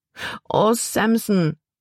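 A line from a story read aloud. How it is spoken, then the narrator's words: Wailing, lamenting. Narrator (German): jammerte Libby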